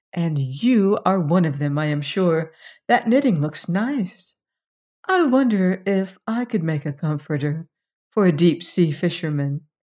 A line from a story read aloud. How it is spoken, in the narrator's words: she sweetly said